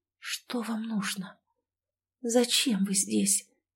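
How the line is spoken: Involuntary whisper. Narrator (Russian): прошептала я, не сумев промолчать

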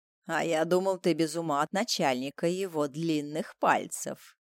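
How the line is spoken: Low voice. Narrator (Russian): отвечает низким голосом

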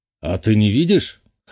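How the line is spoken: Scoffing grunt. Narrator (Russian): хмыкнул

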